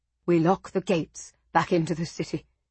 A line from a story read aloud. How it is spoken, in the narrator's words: he said quietly to Giustiniani